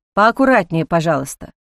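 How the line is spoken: Cold warning. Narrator (Russian): холодно предупредил Ник

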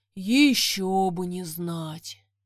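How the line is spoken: Heavy sigh, dragon. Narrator (Russian): тяжело вздохнул дракон

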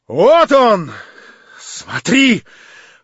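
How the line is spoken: Shouting. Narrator (Russian): прокричала она, наконец, Аглае

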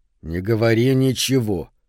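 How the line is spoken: Through clenched teeth. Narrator (Russian): процедил он сквозь плотно сжатые зубы

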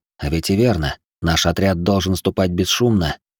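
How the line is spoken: With a snort. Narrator (Russian): Хмыкнув

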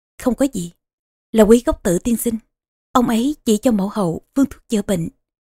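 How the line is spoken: Soft smile. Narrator (Vietnamese): Vương hậu khẽ mỉm cười

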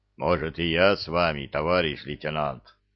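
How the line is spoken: Worried deep boom. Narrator (Russian): Обеспокоенно прогудел самый громадный из пришельцев

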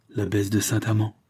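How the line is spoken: Archbishop's stammer. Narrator (French): balbutia l'archevêque

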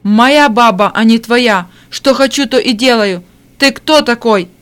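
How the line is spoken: Drunken hiccuping shout. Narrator (Russian): Пьяный Егор прокричал, икая

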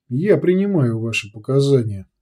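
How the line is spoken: Calm, after brief pause. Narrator (Russian): спокойно произнес Сантьяго после короткой паузы

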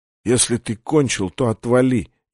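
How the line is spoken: Barely audible. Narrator (Russian): едва слышно сказала Виктория

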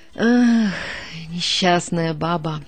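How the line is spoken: Sighing. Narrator (Russian): вздохнула Кирьянова

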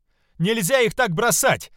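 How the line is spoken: Shouting. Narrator (Russian): кричала Альвия

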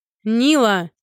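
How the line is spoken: Distant loud bellow. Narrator (Russian): гаркнул из зала хозяин

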